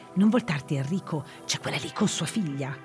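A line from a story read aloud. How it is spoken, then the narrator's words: Tense whisper. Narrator (Italian): irrigidirsi e bisbigliare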